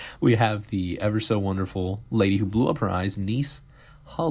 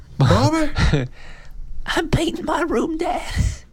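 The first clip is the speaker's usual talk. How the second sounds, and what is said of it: Good impression of a character. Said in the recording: “You do such a good impression of him.”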